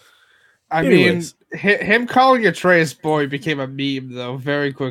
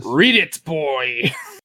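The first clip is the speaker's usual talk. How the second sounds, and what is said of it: Bad imitation of a character's voice. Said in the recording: “No one can repeat Christopher Judge's accent the way Christopher Judge can do it... it's a bad imitation”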